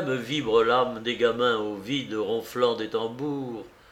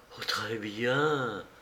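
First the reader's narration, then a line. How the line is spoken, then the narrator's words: Half-voiced. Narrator (French): fit-elle à mi-voix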